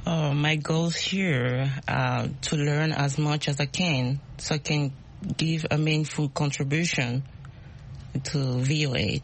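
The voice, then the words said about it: Speaks with an accent. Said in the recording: “My accent... we love accents, we all have accents”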